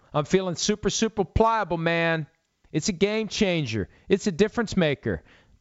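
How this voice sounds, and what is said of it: Imitates another person's voice. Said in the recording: “My Gronk impression sucks.”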